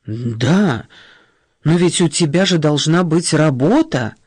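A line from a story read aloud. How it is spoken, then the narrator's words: Indignant, near-shouting exclamation. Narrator (Russian): воскликнула мать, едва не перейдя на крик от возмущения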